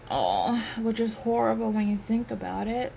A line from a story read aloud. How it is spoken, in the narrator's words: Zink groans